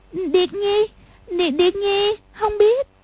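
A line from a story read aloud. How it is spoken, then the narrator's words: Frightened stammering. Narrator (Vietnamese): Trình Anh ... sợ hãi, ấp úng nói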